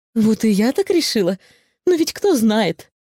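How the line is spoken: Remark with a giggle. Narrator (Russian): заметила Сигнильда и на всякий случай хихикнула

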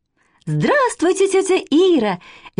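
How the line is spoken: Cheerful shouting young girl. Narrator (Russian): весело закричала с порога старшая, Катя, неполных 7 лет

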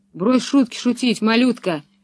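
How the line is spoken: Angry brute. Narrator (Russian): зло проговорил громила Карл

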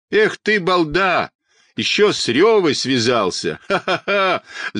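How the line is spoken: Mocking laughter, nasty boy. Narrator (Russian): захохотал противный мальчишка

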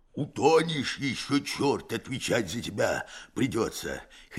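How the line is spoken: Hoarse. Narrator (Russian): хрипит Герасим

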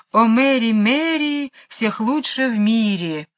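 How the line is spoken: Cheerful singing. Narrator (Russian): весело распевая эту странную песню

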